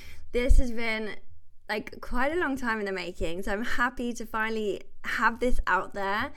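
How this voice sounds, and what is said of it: Excited, enthusiastic voice. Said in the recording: “I'm so excited to have you here, if you can't hear it in my voice already”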